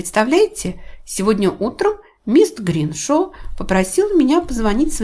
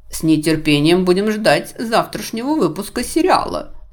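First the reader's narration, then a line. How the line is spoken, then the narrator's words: Mocking remark. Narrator (Russian): насмешливо заметил Рэймонд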